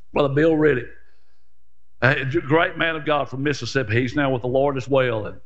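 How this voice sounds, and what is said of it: Country rural American accent. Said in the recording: “I know I'm country. People remind me of my accent all the time.”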